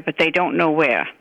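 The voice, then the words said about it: Boston accent. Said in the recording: “the Boston accent ... where did this accent come from ... It reminds me of my Boston relatives.”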